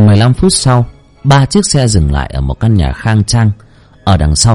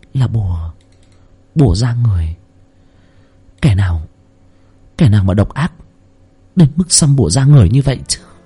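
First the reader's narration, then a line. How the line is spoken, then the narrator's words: Soft, surprised sigh. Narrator (Vietnamese): Ở trong mắt của cô ánh lên một tia kinh ngạc, trong lòng khẽ than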